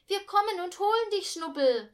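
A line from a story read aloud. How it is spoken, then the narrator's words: Calling out. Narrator (German): rief sie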